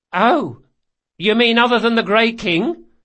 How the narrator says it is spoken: Carlo snorted

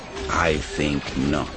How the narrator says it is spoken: the Emperor said softly

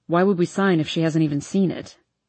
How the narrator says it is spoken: Hardin says in a flat tone

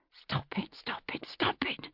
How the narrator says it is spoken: whispered through clenched teeth

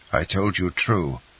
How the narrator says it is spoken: replied he coldly

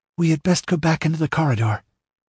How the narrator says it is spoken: Natala ventured nervously

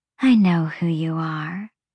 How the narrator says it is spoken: the fawn said, her voice husky

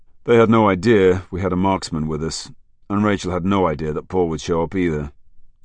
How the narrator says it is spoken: Jackman sighed

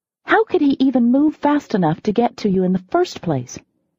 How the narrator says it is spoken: I exclaimed

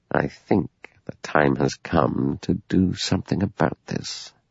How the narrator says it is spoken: He said very softly

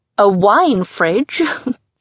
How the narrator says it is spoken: She laughs

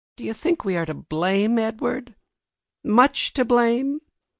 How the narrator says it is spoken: Finally Mary sighed and said

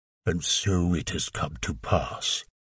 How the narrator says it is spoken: growled

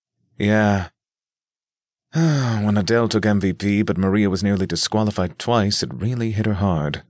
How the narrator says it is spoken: Spencer sighed

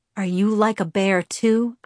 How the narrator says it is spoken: I asked in a low voice

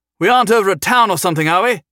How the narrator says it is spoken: Humphrey yelled out to Clive

